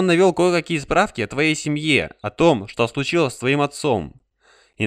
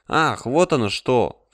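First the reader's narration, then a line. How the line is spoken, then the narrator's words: Sighed. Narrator (Russian): вздохнула Дерин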